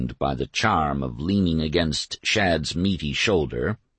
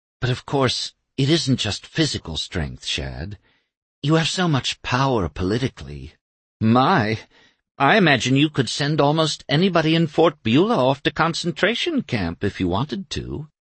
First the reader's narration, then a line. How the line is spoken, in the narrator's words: she purred